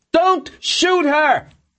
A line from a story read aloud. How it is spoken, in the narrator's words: Borkin screamed